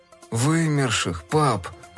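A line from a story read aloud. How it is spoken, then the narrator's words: Glum correction. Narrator (Russian): уныло поправил Фил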